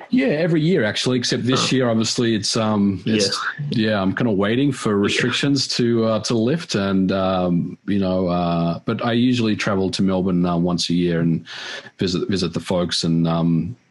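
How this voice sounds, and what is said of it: Australian accent, slight American tinge. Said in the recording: “you haven't lost the Aussie accent ... a little twinge of a US accent at the end of it ... I think it's still all Aussie”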